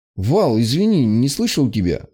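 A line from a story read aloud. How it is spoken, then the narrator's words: Confused young man. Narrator (Russian): растерянно произнес парень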